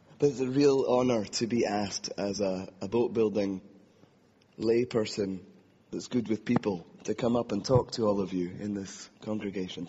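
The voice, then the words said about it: Speaks with a distinct accent. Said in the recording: “people think we're brothers a lot, which is strange given my accent”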